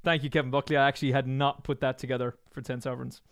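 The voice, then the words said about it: Strained, worn-out voice. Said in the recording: “My voice is destroyed from voiceovers left, right, and center all day long. I can normally sing, but I'm afraid for the second day in a row, I can't.”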